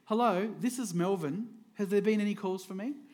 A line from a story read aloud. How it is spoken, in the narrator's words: The father calmly said